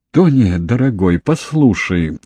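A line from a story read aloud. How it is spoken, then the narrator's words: Sad. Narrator (Russian): грустно сказала мать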